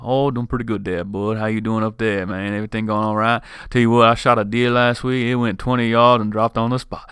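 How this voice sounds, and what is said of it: Put-on Louisiana Southern accent. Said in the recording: “my cousin Lane down in Louisiana ... I love trying to do different accents. Sometimes I'm halfway decent”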